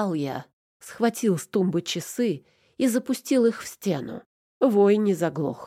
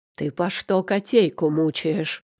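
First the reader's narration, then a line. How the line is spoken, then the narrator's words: Growling. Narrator (Russian): прорычал я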